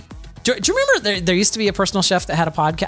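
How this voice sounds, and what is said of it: Voice goes up very high. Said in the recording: “my voice went up so high there”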